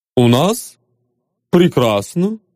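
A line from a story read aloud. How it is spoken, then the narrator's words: Calm reply. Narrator (Russian): спокойно ответил Душинцев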